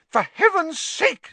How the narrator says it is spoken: said Madame Pumphrey hysterically

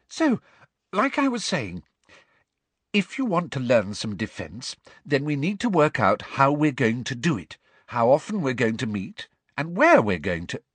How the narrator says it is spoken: said Hermione, her voice very high-pitched again

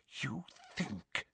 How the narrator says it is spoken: she whispered

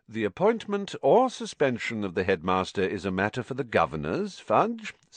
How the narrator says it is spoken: said Mr

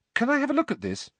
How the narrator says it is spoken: Harry asked Luna eagerly

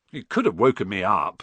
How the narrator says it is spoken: said Ron, crossly

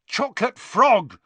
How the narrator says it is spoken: he yelled angrily

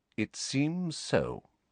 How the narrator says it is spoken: said Snape coolly

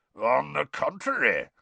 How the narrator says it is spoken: growled Moody

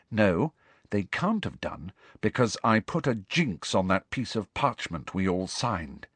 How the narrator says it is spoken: said Hermione grimly

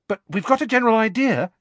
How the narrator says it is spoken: she added hastily

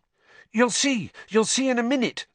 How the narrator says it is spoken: said Hermione excitedly

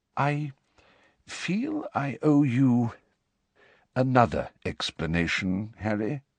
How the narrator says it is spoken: said Dumbledore hesitantly

